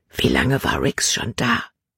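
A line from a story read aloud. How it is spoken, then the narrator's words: Whispering. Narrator (German): flüsterte sie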